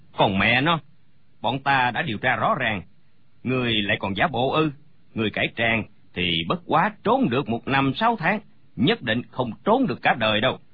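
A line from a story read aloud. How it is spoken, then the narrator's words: Sneering. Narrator (Vietnamese): Gã cao kèo lại cười khẩy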